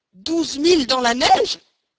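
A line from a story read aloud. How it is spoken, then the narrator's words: Exclaimed. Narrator (French): s'écria Stamp W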